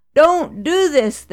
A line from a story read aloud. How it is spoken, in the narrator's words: they cried